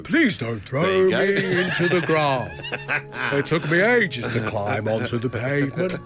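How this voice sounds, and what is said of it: Worm-like character voice. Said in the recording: “Audibly worm-like. ... That was your new impression. You've got a worm impression.”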